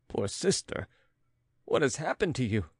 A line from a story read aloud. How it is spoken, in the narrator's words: Andrea laughed with a nervous tone